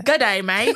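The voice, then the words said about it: Put-on Australian accent. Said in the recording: “One of them's like, Australia, New Zealand ... Do your accent. Do the accent so I can believe it.”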